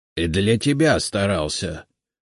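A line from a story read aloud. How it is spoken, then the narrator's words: Grumbling. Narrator (Russian): проворчал Игнат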